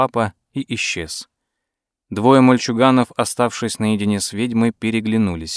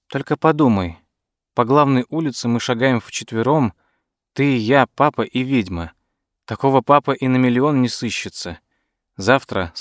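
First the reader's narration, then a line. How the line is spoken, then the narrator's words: Plain. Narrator (Russian): сказал Дуглас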